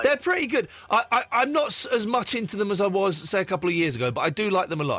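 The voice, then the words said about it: Tired, cracking, strained voice. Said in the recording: “I'm tired. My voice is cracking. I can hardly speak.”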